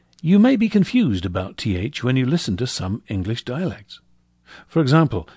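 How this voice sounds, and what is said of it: Usual voice. Nothing is said of it.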